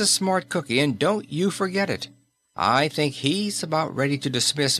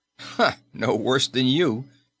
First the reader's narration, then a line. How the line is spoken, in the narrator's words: said Kennedy with a short laugh